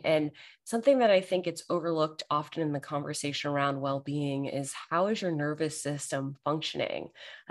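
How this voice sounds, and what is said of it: Tired, strained voice giving out. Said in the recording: “I feel tired. I can tell my voice is giving out a little bit.”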